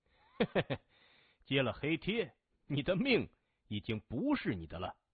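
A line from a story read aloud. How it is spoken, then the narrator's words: Chuckling. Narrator (Chinese): 窗台上那个人嘿嘿一笑说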